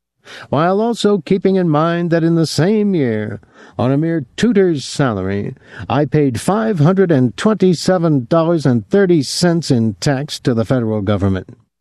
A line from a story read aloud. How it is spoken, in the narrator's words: Professor Denton would declaim bitterly